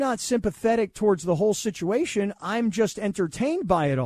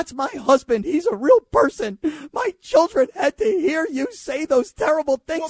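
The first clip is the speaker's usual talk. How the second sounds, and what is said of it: Mock crying whiny voice. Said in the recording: “why do you got to do that voice? ... Because I'm crying. That's like my thing. I'm like, I'm crying.”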